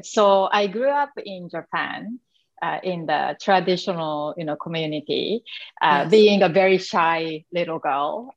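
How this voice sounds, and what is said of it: Japanese accent. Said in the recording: “probably you can tell, you know, from my accent that I came from Asian background... I'm from Japan”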